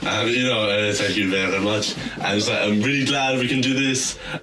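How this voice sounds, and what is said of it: Put-on French accent. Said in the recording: “comes out with his French accent ... I'm going to stop doing the accent.”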